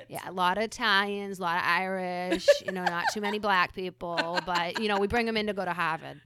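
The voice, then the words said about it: Put-on Boston accent. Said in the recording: “I got to do my accent”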